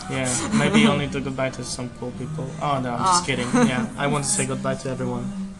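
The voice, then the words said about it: Slavic-accented English. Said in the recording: “my broken English and my Slavic accent”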